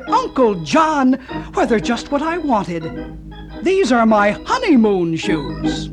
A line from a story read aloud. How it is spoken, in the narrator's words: A happy-voiced young lady who clapped her hands delightedly, cried